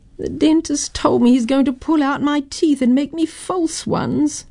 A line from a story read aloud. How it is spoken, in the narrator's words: she sighed